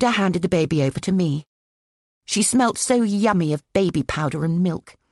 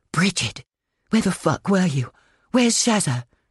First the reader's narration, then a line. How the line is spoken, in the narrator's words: hissed Magda